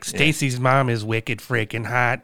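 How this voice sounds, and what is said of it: Put-on Boston accent. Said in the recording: “we should have more songs where they do it in accent, like Boston”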